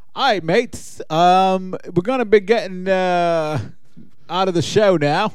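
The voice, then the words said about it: Put-on Australian accent. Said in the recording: “I'll finish off the show with my Australian accent. ... That was fantastic.”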